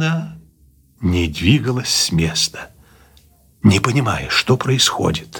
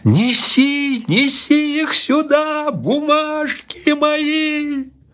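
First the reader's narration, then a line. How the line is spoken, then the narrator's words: Frightened, shouting even louder. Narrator (Russian): испуганная, закричала еще громче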